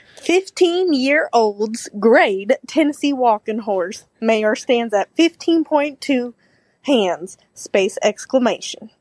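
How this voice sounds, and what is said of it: Put-on Southern US accent. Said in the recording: “I'm going to do my southern accent.”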